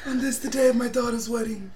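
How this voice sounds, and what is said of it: Italian Godfather-style movie accent. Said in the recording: “Is that your Italian accent? Is that your godfather ... accent?”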